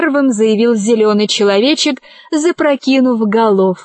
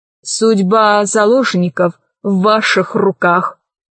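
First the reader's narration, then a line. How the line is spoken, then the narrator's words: Grim male declaration. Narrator (Russian): мрачно заявил высокий негр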